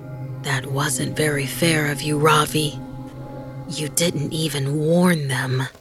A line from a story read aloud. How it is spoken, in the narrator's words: Vivan, still in the bunk, whispering